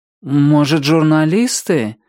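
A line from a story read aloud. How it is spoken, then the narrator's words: Uncertain suggestion. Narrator (Russian): неуверенно предположил он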